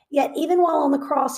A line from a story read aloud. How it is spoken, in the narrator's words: he cried